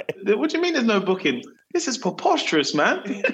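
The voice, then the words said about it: Exaggerated posh British accent. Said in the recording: “I kind of increase the British tone sometimes”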